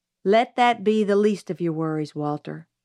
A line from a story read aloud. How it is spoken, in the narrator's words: Atticus said